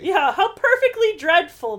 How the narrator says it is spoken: Bess exclaimed

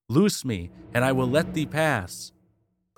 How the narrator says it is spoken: Skiron cried, panting

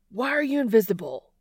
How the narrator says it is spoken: he shouts

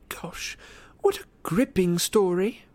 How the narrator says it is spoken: Hermione said in the lofty voice she adopted when wishing to wound

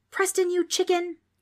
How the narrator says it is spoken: Trix yelled at him

